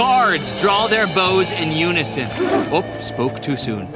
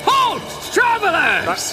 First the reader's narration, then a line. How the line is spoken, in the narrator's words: you hear one of the soldiers yell